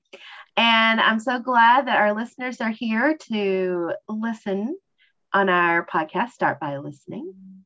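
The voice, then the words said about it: Strong country twang accent. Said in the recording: “my country twang, it is live and loud today”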